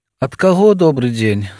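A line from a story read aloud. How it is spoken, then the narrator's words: Sad doctor asking. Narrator (Belarusian): сумна запытаў лекар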